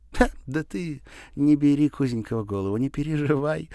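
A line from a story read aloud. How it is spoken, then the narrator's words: Laughing. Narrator (Russian): засмеялась она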